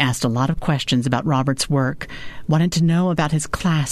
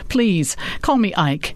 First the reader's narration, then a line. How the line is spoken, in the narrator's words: Ike laughed and said